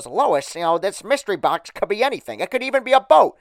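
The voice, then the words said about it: Deliberately poor cartoon character impression. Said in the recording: “That's a terrible impression. I'm sorry. I'm not Frank Caliendo with the impressions.”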